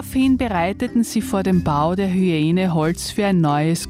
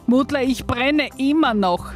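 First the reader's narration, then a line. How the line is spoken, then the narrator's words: Tormented scream. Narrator (German): schrie die Hyäne gequält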